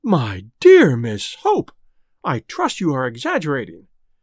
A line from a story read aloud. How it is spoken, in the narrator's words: exclaimed the Quabaris in unison